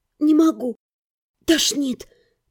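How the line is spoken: Hoarse croak. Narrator (Russian): прохрипела я

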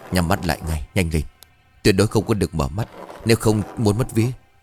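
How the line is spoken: Urgent frightened whisper. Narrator (Vietnamese): Biết chắc đêm này bị ma quỷ trêu ghẹo, ông Quảng vội thì thầm

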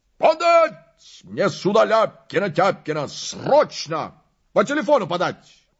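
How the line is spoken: Window-rattling bark. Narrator (Russian): Набрал воздуху и гаркнул так, что дрогнули стекла

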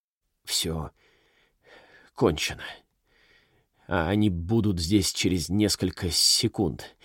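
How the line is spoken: Stammering. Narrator (Russian): заикаясь, произнес Манос

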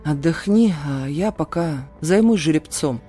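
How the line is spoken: Tired. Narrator (Russian): устало произнес бродяга

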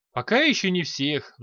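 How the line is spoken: Sighing. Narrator (Russian): вздохнул Т'Арохин

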